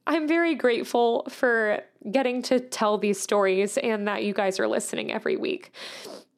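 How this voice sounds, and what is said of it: Emotional, slightly choked-up voice. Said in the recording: “I'm getting a little bit emotional.”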